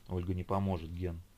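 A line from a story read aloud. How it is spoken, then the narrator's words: Whispered reply. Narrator (Russian): шепотом отозвался Бекас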